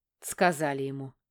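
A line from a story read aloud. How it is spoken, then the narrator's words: Displeased grumble. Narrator (Russian): Недовольно проворчал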